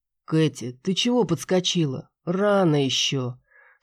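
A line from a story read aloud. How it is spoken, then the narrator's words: Sleepy. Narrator (Russian): сонно сказал Макс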